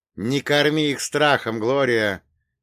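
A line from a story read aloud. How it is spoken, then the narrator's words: Shouting over fear. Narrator (Russian): крикнул я, пытаясь заглушить и собственный ужас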